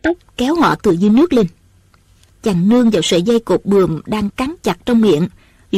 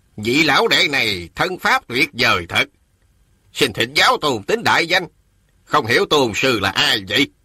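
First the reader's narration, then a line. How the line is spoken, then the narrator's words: Old man, sneering. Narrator (Vietnamese): Ông lão cười khẩy rồi nói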